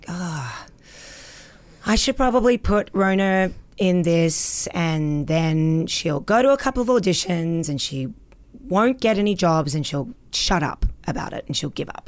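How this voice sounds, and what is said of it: Resigned imitation of another person's voice. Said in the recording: “that impression of your mom, there's like a sense of resignation in it too”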